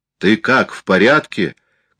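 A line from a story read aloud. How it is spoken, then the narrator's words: Shouting. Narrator (Russian): крикнул ему Экланд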